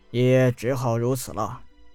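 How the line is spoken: Sighing. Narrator (Chinese): 楚汉叹了一口气，道

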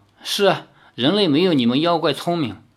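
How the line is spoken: Awkward forced laugh. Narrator (Chinese): 李逍遥干笑了两声，说

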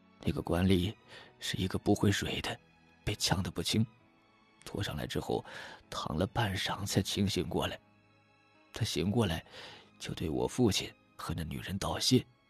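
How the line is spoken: Choked-up, tearful telling. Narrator (Chinese): 他一臂哽咽着，一臂继续讲道

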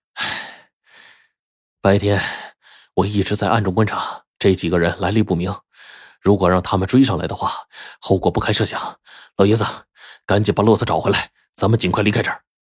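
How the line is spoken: Breathless, relieved. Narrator (Chinese): 张成这才喘了口气说

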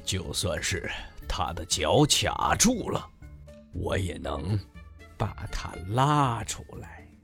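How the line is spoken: Grumbling mutter. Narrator (Chinese): 哼，鲸鱼嘟囔着说

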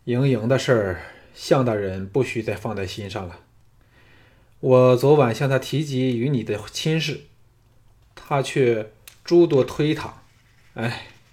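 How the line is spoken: Sighing, wry smile. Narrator (Chinese): 昌文君 叹了一口气，苦笑说

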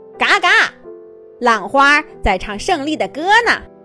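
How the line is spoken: Loud. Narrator (Chinese): 鸭小嘎 大声地说

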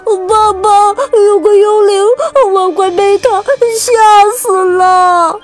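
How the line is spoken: Terrified crying. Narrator (Chinese): 艾玛吓哭了

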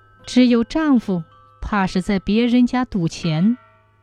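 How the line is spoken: Sighing young woman. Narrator (Chinese): 小娘子叹了口气说

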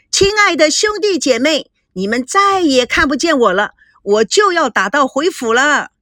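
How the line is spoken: Shouting. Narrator (Chinese): 他对着报纸大喊

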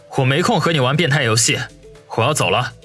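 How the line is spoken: Cold. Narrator (Chinese): 王宇冷冷说道

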